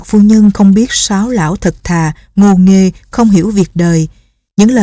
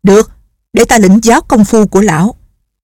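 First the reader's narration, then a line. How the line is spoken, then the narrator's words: Impatient woman shouting. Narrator (Vietnamese): Không nhẫn nại được nữa, bà quát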